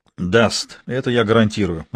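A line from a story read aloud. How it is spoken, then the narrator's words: Plain. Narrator (Russian): ответил я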